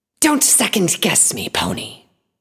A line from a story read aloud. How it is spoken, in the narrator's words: she hissed